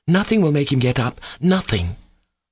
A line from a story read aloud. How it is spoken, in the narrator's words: Kolya cried triumphantly, proud of his success